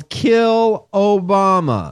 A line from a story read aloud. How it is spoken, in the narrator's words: At Trump's acceptance speech, somebody yelled